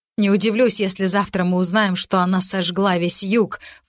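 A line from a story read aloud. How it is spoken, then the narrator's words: Snorted. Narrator (Russian): фыркнула водная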